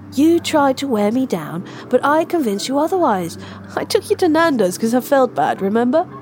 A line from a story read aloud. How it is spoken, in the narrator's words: Mel tried to laugh, but she stopped finding it funny an hour ago